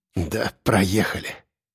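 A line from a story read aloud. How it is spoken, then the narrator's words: Mumble. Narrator (Russian): пробормотал я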